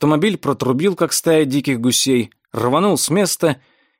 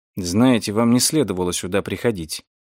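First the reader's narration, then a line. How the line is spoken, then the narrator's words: Quiet. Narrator (Russian): он негромко сказал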